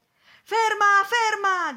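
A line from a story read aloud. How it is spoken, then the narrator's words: Shouted. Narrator (Italian): gridò il signore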